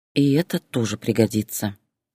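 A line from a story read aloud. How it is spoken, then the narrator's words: Quiet. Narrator (Russian): тихо сказала она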